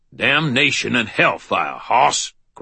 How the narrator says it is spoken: growled Ebenezer's voice

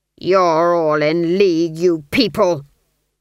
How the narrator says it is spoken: the duke snarled

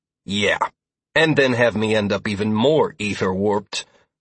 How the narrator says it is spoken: I grunted

